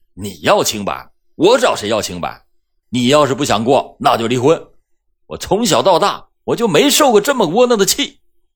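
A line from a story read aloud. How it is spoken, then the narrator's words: Angry roar. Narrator (Chinese): 张春阳则怒吼道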